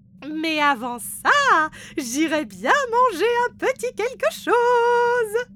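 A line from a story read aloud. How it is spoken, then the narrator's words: Exclaims. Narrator (French): s'écrie Grand Chef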